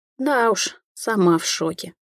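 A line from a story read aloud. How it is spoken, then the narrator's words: Sad. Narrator (Russian): поделилась и стало грустно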